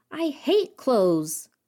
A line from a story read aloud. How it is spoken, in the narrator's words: Anna bellows